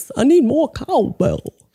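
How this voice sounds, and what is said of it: Christopher Walken impression. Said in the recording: “It's Christopher Walken ... that impersonation ... That actually was very good.”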